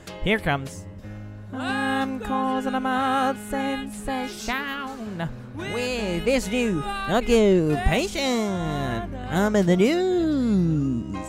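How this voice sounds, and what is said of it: Sung bad imitation of another's voice. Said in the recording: “an impression of someone doing a bad impression of Bob Dylan”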